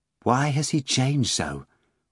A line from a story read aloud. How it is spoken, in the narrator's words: Margarita asked quietly of Volant as the wind whistled by